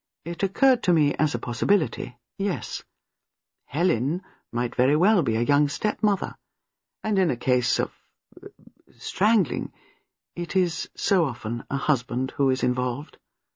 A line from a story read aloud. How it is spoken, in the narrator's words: Miss Marple said gently